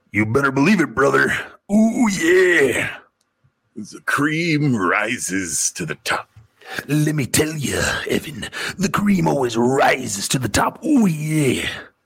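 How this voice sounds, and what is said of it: Pro wrestler impression voice. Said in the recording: “wrestling impersonations”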